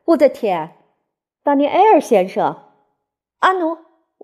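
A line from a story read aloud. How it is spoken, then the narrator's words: Loud exclamation. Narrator (Chinese): 他高声的大叫起来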